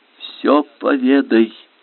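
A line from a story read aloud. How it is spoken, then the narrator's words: Barely audible command. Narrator (Russian): велела она чуть слышно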